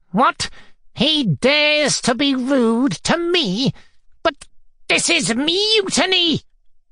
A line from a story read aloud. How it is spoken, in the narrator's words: shrieked Fomar